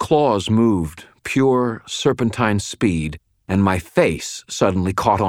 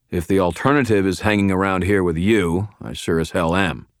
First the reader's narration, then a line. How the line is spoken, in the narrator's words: I replied